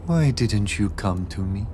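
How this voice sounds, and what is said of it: Soft, higher voice, slight French accent. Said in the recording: “Her voice, when it came, was the tenderest breath ... The voice, higher than Beatrix's own, and with a slight French accent.”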